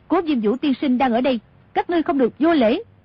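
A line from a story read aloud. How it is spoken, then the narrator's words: Loud calling out. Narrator (Vietnamese): Tô Thuyền cao giọng gọi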